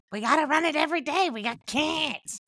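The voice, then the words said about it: Imitates another person's voice. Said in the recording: “That's how Winston sounds to me when he talks about the vacuum cleaner ... That was like a really good impression”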